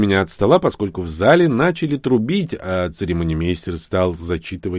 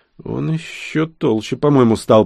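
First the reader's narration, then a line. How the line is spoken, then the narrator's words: Whisper in ear. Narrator (Russian): прошептал я на ухо девушке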